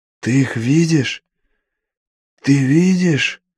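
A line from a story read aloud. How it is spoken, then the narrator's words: Gasping strained priest. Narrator (Russian): выдавил жрец в промежутках, втягивая затхлый воздух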